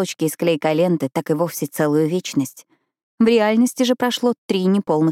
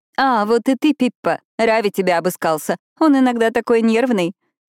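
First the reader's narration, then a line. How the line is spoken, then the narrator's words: Woman laughing. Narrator (Russian): засмеялась Ниша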